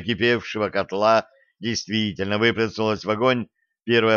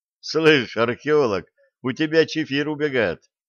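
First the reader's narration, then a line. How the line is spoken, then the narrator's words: Laughing. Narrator (Russian): рассмеялся Блад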